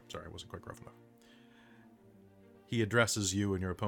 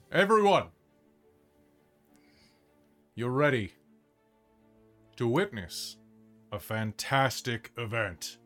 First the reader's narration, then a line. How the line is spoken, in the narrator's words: In his deep, booming orc voice, he goes